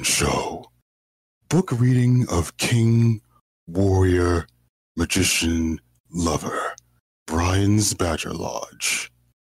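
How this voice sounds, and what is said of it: Imitates a video game character's voice. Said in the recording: “that was a good impression or not, but it sounded fine”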